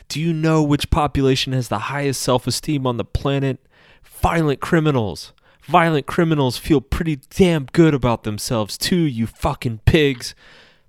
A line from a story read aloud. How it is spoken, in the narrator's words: screaming at a group of executives